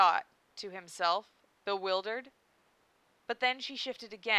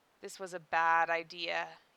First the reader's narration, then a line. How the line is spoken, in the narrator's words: sighed